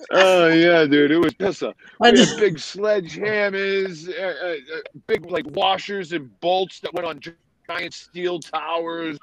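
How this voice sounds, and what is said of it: New England accent. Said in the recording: “I hear your New England accent.”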